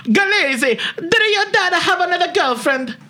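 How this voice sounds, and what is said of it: Exaggerated put-on Italian accent. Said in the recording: “So here's my Italian... You sound like Mario... my Italian accent is quite the killer”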